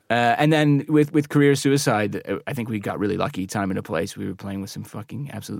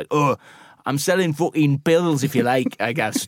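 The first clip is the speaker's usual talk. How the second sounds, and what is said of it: Weak put-on northern English accent. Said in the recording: “that accent's stricken from the record ... I'm usually a bit better at northern accents than that, but I'm not sure I'm hitting the nail on the head”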